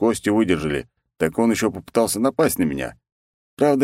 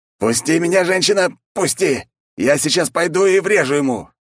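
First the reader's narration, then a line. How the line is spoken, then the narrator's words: Frantic yelling. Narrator (Russian): орал, как не в себя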